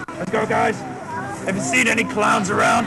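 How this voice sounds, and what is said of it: Bad Batman voice, Australian accent. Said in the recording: “Australian Batman talks like ... What the fuck kind of accent is that? ... The worst interpretation of a Batman voice I've ever heard”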